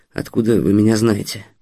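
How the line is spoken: Muttered, calming down. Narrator (Russian): пробормотал, немного успокаиваясь, Стас

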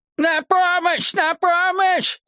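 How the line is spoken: Desperate screaming. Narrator (Russian): отчаянно завопил дядя Исаия

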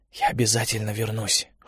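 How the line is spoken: Whispered promise to self. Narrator (Russian): шепотом пообещал Олег сам себе

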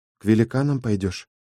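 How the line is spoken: Quiet question. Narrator (Russian): тихо спросила Ива

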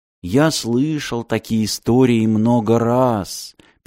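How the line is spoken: Sad. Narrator (Russian): печально сказал ключник

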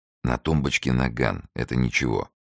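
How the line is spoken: Whispered narration. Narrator (Russian): шепотом рассказывал Фондорин

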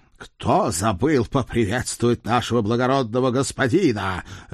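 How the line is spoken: Barked. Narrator (Russian): рявкнул Седрик

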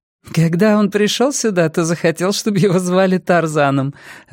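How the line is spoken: Laughing woman. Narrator (Russian): рассмеялась Джейн

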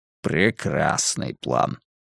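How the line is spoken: Grumbled. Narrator (Russian): проворчал Варгас

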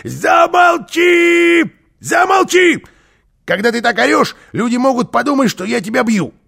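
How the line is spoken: Shouted. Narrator (Russian): Карлсон закричал

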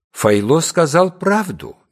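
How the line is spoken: Soft. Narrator (Russian): мягко произнес Батник

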